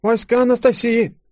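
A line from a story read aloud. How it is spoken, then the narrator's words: Meek babbling boy. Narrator (Russian): покорно залепетал парнишка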